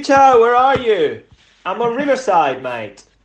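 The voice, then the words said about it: Cockney London accent. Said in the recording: “It's in my Cockney accent. ... You sound like you're from London town, mate.”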